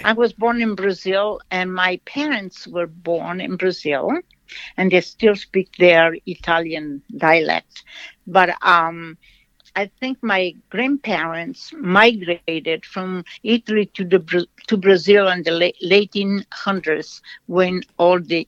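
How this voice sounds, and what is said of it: Slight foreign accent. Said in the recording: “People listening probably hear a little accent.”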